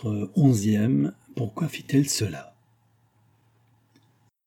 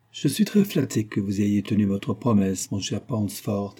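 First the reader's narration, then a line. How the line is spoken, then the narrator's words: Plain. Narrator (French): dit-il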